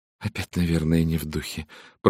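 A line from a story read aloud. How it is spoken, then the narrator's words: Muttering. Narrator (Russian): пробормотала миссис Хаббард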